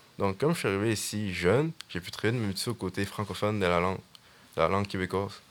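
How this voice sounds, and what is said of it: Fairly strong accent. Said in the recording (French): “j'ai un accent un peu fort”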